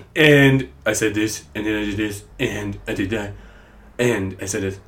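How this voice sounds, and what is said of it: Poor Donald Trump impression. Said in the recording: “I'm like Donald Trump... He says and a lot, like and... that was a terrible Donald Trump impression.”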